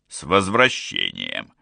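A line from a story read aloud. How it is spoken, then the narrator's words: Rough low voice, tiny creature. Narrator (Russian): Слишком грубым и низким голосом для такого крошечного существа поприветствовала она Олли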